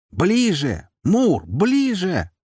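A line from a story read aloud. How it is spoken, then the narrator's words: Yelling over roaring noise. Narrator (Russian): заорала Дриада, пытаясь перекричать ревущего демона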